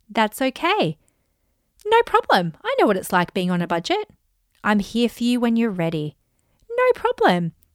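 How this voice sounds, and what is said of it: Calm robotic voice-assistant voice. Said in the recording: “I'm doing it in my like Alexa voice.”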